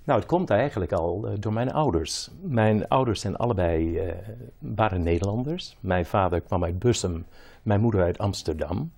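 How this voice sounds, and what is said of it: Slight American accent in Dutch. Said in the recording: “Dat je nog altijd dat accent hebt een beetje ... Je klein beetje Amerikaan.”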